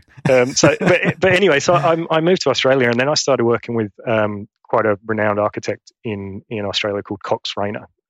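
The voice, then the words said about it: Broad Queensland Australian accent. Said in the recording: “you picked up this accent ... my Essex accent has gone. And now I probably have a very bogan Queensland accent”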